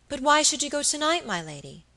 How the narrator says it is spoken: cried Phoebe Marks

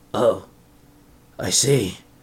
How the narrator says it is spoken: Zenarku sighed

